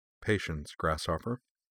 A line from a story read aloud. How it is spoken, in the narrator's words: said quietly